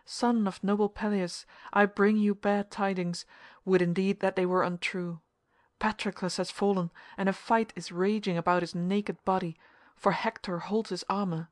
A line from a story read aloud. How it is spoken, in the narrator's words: cried